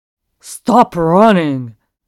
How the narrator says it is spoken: the man snaps

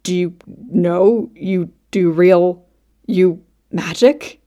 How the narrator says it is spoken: Buck splutters

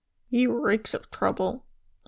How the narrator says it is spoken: Lambert muttered

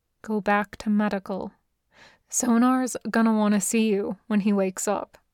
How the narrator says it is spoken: Then softly

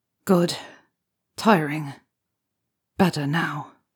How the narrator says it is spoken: Henry murmurs back

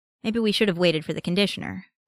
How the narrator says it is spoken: Parker says

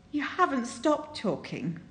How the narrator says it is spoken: Lin Jing wheezes

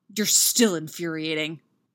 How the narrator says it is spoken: Derek growls

